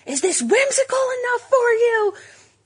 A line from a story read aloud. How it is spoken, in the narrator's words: she was yelling across aisles